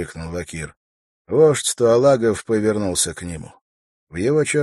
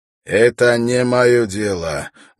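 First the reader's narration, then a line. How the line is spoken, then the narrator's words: Rude statement. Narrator (Russian): грубо заявил он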